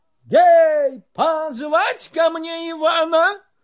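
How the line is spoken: Hasty shout. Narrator (Russian): Царь поспешно закричал

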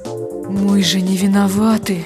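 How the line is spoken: Sighing. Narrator (Russian): вздохнул голос

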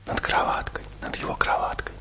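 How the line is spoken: Grandmother whispering. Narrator (Russian): зашептала бабушка

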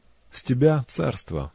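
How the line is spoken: Calm statement. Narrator (Russian): спокойно заявил Персей

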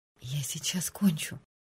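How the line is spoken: Breathless whisper. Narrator (Russian): на одном выдохе прошептала она

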